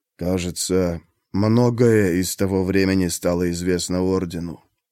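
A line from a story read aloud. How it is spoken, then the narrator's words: Calm tone. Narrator (Russian): спокойным тоном сказал Руин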